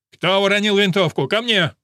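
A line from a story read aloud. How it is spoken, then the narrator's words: Shouted. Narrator (Russian): прокричал он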